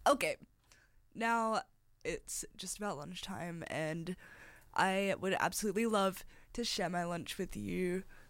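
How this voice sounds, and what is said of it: Hoarse, croaky throat. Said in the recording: “I've got a frog in my throat ... I'm so sorry for my voice right now. I need to go to get a sip of water.”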